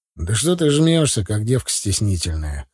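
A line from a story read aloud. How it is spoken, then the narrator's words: Smirking. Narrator (Russian): хмыкнул я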